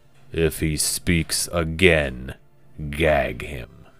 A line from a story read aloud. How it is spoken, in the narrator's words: Gorkro rumbled